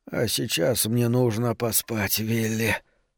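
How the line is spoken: Weakening voice. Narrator (Russian): слабеющим голосом завершил разговор Шрёдер

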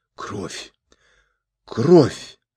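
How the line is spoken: Strained, forced out. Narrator (Russian): выдавил из себя Джучи

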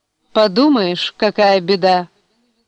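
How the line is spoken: Mocking remark. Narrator (Russian): насмешливо промолвила

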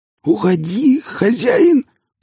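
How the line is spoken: Dying wheeze. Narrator (Russian): просипел Ли, испуская дух

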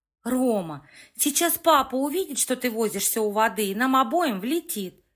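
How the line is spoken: Stern scolding. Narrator (Russian): Лекса строго отчитывала младшего брата

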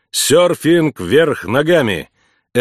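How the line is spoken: Laughing loudly. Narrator (Russian): Эмма хохотала

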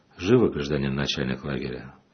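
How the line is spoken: Plain. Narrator (Russian): ответил отец Арсений

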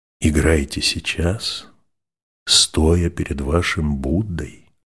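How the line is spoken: Very quiet, barely audible. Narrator (Russian): прибавил он так тихо, что слышала только одна Лиза

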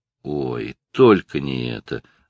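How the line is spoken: Groaning with laughter. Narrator (Russian): застонал Стив, помирая от смеха

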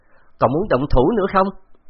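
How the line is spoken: Raised challenging voice. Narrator (Vietnamese): Gã cao giọng hỏi

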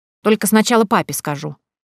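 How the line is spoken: Stern declaration. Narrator (Russian): строго заявила блюстительница нравов

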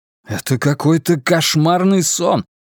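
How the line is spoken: Exclaimed. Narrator (Russian): воскликнул Майкл

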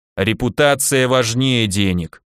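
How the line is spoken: Grumbling. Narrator (Russian): проворчал Михаил Викентьевич

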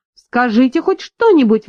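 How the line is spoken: Exclaiming. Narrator (Russian): воскликнула она

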